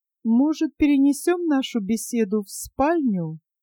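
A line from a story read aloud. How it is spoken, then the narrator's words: Hostess's even voice. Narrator (Russian): ровным голосом предложила хозяйка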